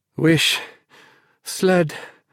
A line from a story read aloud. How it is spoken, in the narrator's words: panted